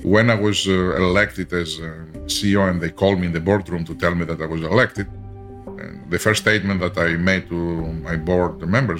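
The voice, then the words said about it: Very heavy foreign accent. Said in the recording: “I have a very heavy accent.”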